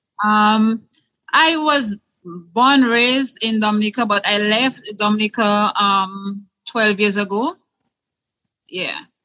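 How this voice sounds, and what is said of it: Noticeable non-American accent. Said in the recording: “Loving the accent.”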